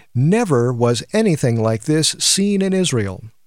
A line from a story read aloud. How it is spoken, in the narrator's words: Crowds marveled and exclaimed